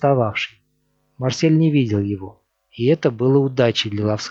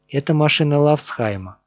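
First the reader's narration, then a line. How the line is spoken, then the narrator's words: Tired reply. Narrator (Russian): устало ответил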